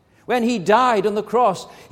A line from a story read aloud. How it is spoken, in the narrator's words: he cried out